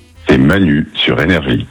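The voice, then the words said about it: Deep radio voice-over voice. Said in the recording (French): “Vous aimez bien la grosse voix?... Il fait voix off un peu. Je vois bien en générique de film.”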